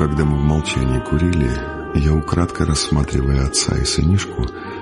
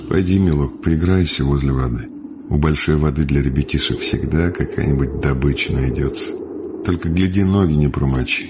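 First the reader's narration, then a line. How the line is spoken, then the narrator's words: Gentle, to child. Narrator (Russian): ласково подталкивая сынишку, сказал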